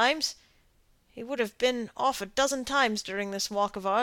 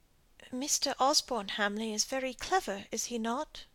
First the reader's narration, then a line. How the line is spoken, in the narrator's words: Molly asked timidly